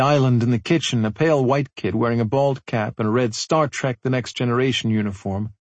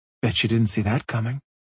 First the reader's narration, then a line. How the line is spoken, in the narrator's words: mumbling